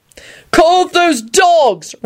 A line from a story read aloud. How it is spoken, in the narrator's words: Ron shouted angrily